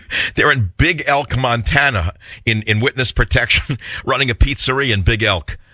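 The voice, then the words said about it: New York accent. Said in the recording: “I never hid my accent ... I'm one of the last people on earth who speaks with a New York accent ... No one in New York sounds like me”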